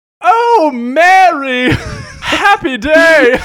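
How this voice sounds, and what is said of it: Older woman's glad cry, British-ish accent. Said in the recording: “your older-ish woman glad cry ... got a British accent. ... British, African, British, a little bit”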